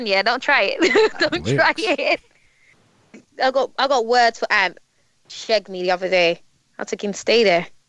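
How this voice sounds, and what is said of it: British Queen's English accent. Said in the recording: “you put it with the Queen's English ... my accent has born with it”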